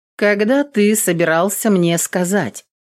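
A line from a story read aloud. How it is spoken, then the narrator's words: Cold question. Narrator (Russian): холодно спросила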